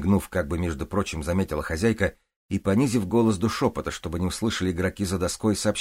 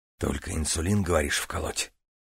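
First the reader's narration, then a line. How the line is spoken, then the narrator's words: Whispered question. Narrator (Russian): Ей в такт тоже шепотом поинтересовался Стас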